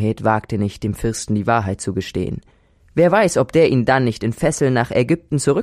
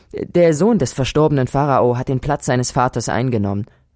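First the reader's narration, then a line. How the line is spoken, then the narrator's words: Plain. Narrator (German): antwortete Sinuhet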